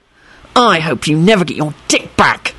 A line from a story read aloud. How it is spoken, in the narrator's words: Harry hissed